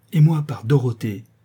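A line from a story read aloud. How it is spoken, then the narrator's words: Exclaimed. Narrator (French): s'écria Derneval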